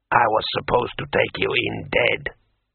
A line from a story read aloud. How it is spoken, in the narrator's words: muttered Kai Sidra sullenly